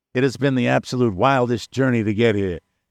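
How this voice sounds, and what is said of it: Put-on New York accent. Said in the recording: “I don't know why I'm giving him a New York accent... he doesn't sound New York. He sounds douchebaggy.”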